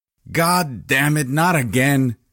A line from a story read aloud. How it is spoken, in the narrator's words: screamed Ricky